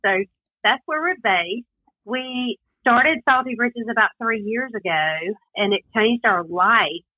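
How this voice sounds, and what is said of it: Slight Southern US accent. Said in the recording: “you've got a little bit of one ... I am certainly from the South ... Southern twang”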